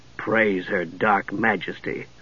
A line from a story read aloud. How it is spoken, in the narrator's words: Steele muttered